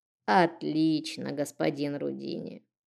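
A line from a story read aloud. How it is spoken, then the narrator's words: Creaky old woman's voice. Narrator (Russian): проскрипела старушка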